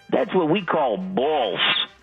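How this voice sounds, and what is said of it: Put-on New York accent. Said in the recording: “he's doing the New York accent.”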